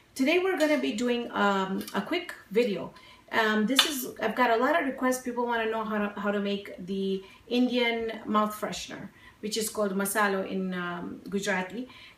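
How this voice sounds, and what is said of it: Breaking voice from a cough. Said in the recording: “apologize for my voice. Looks like it's breaking again. That awful cough hasn't gone away.”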